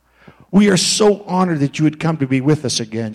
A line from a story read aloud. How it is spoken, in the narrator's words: she said